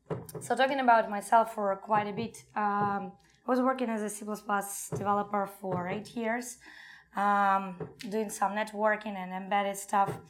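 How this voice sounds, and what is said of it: Strained, hoarse, fading voice. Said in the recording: “sorry for my voice. I'm a little bit running out of it”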